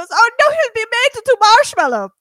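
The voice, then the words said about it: Put-on foreign accent. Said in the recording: “That's my great accent. I guess it's like a Melania Trump, but it's fine.”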